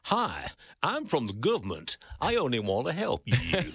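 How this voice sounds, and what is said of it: Poor imitation American accent. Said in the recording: “That was an appalling attempt at an American accent.”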